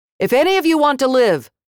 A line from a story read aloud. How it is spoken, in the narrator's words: I yelled out at them